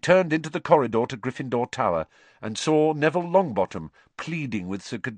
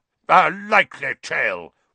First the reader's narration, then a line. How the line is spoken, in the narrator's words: roared Sir Cadogan